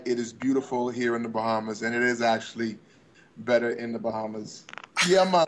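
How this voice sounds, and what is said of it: Caribbean accent, heard as Jamaican. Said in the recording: “with my accent? ... I thought that was a Jamaican accent.”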